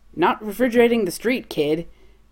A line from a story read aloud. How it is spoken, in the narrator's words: Chris shouts